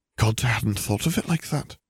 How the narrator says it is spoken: she gasped

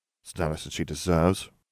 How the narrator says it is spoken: muttered, clenching his fist round his fork so tight it turned white

